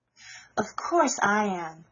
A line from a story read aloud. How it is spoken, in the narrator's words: cried Meg